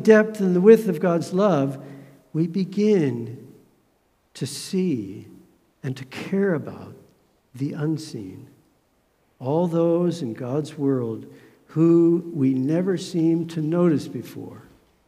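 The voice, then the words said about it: Emotional, choked-up voice. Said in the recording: “This is a topic that gets me a bit emotional.”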